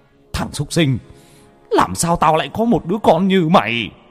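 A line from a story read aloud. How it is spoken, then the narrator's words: Roaring in fury. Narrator (Vietnamese): ông vừa gầm lên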